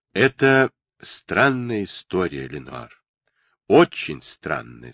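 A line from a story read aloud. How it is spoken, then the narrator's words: Plain. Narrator (Russian): сказал отец Джордж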